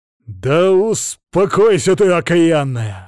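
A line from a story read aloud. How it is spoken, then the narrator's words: Growling man. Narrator (Russian): зарычал мужик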